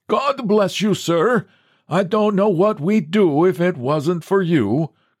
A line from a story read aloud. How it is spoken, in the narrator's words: cried the old Norwegian from the door